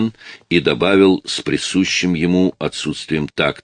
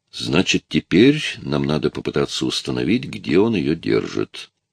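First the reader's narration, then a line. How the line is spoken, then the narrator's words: Quiet voice. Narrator (Russian): произнес Рэй своим тихим голосом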